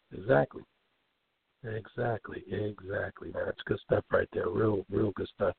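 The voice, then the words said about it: Weak voice cutting in and out. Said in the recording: “my voice is going in and out. I'm still kind of hurting there”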